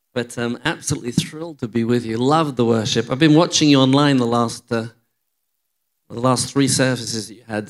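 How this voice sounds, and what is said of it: English accent. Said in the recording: “I'm from England ... You'll get used to my accent”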